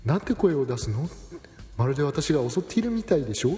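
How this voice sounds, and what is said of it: Refined, elegant voice. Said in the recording (Japanese): “あの上品な声でねおっしゃるんですよね”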